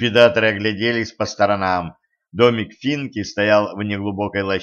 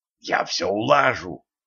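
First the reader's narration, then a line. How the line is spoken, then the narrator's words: Excited whisper. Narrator (Russian): азартно зашептал ликвидатором Ланс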